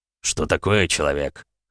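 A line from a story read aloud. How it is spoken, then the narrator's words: Snort. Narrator (Russian): хмыкнул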